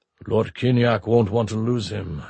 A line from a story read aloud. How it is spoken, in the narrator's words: Antonov rumbled